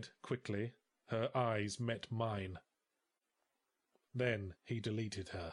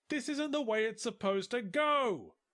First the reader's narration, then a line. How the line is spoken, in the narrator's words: I yelled